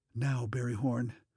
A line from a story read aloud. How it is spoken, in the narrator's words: he whispered